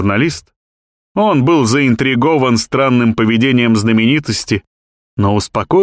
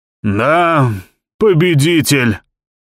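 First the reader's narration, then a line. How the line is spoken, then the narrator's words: Wheezing old man. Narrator (Russian): просипел старик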